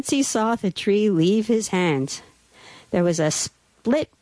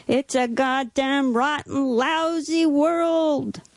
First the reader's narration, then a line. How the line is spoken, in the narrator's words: his heart wailed out